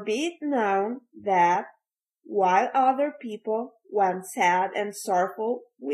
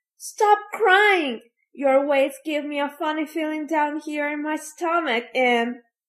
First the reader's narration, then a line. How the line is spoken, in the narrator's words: After sneezing, Fire Eater, ugly as ever, cried to Pinocchio